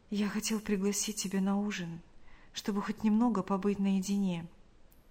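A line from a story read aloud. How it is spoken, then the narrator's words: Whisper. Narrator (Russian): прошептал он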